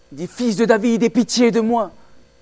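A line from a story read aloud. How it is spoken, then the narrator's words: Shouting. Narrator (French): criait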